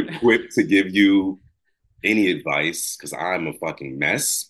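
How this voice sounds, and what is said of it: Accent, says 'ax' for 'ask'. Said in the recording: “ax, maybe that's my accent. When you asked, ax”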